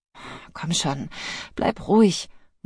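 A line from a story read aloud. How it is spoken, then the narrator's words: Murmur. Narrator (German): murmelte sie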